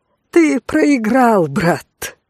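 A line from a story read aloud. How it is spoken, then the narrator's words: Pleased, then laughing. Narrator (Russian): довольно произнес Вадий и рассмеялся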